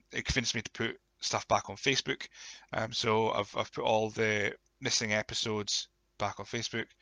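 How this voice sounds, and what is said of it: Croaky voice. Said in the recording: “my voice is very croaky today”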